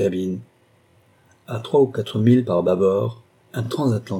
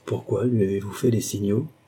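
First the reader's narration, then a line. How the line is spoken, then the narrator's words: Murmured. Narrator (French): murmura Scrimshire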